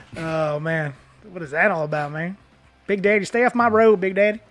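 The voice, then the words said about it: Good put-on Southern accent. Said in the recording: “You do a pretty good Southern accent. You sound just like everybody.”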